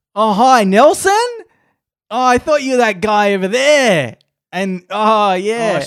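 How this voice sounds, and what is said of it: Exaggerated broad bogan Australian accent. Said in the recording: “she was Australian ... she was very Boganish ... sometimes we affect what we think is a thicker Australian accent ... For comedic effect ... It's meant to be redneck equivalent”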